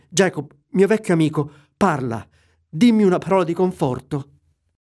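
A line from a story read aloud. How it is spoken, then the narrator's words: Pleading. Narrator (Italian): supplicò Scrooge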